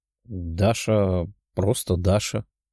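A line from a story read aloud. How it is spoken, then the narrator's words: Slightly unsure. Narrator (Russian): немного неуверенно сказала краснокожая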